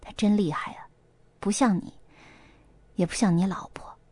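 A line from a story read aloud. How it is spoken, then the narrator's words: Admiring sigh. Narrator (Chinese): 何阿姨感叹道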